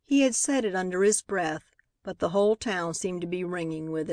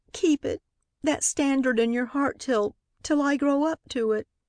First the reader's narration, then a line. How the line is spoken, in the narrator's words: sobbed